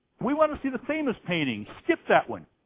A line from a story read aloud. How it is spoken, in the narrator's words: a voice from the back of the room shouted